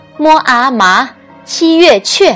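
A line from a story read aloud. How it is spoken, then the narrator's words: Loud, word by word. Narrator (Chinese): 一字一句大声拼读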